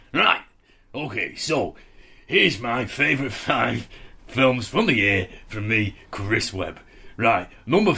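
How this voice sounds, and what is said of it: 1970s northern English comedian voice. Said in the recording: “please do it in the style of a 1970s northern comedian ... you've got 70s Northern comedian”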